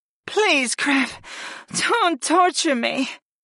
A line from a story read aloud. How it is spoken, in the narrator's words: the dark-winged moaned